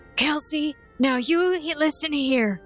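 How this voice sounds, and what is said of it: Woman putting on a male voice. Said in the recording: “your best male impression. Pretend to impersonate your brother ... It's passable ... About as masculine as Finnevere”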